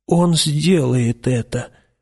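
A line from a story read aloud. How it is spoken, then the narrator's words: Muttering. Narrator (Russian): пробормотал низенький гильдиер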